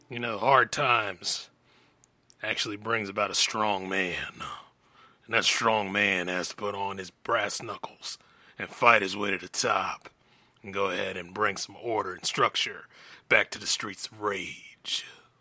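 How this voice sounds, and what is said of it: Sam Elliott impression, gravelly drawl. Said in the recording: “I was trying to do a Sam Elliott impression”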